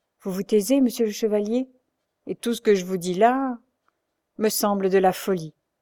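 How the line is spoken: Knight speaking sadly. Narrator (French): dit tristement le chevalier

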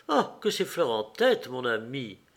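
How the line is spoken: Restrained reproach. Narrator (French): elle ajouta d'une voix de reproche contenue

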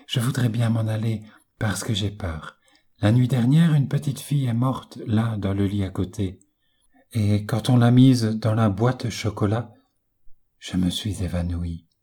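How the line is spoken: Whispered. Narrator (French): me dit-elle tout bas

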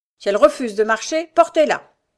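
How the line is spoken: Harsh command. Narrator (French): ajouta-t-il durement

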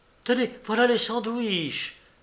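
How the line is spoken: Exclaimed. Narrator (French): s'écria Athalie

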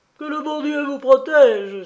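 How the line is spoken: Cry. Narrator (French): s'écria-t-elle

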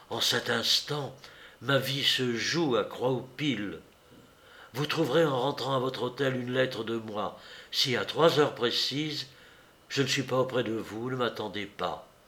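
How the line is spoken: Whispered. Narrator (French): Il me dit tout bas

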